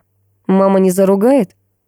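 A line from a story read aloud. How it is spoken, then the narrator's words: Ingratiating, insinuating question. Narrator (Russian): спросил вкрадчиво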